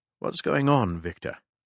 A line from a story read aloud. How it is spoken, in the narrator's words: Gently, Picard said